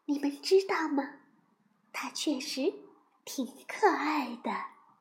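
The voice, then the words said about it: Whispered soft line. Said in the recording (Chinese): “小声地说”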